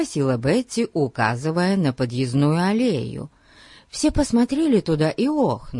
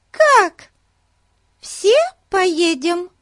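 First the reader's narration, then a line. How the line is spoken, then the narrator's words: Joyful exclamation. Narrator (Russian): радостно воскликнула Бетси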